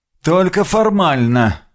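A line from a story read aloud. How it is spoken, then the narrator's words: Displeased grumble. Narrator (Russian): буркнул Грегор, явно не очень довольный моей самодеятельностью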